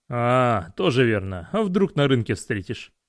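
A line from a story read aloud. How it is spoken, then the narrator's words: Chuckling at own joke. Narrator (Russian): хохотнул над своей шуткой охранник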